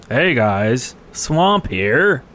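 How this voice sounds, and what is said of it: Imitates another person's voice. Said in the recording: “That was a great Swamp impression.”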